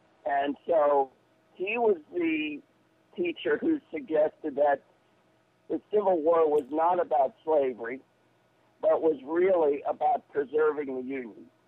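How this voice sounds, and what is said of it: Northeastern American accent. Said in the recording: “I was educated in the North, in the Northeast, as you can probably tell from my voice.”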